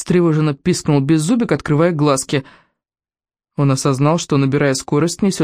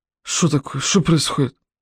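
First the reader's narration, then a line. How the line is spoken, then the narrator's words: Sleepy mumbling. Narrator (Russian): Их обитатели сели, протирая глаза и бормоча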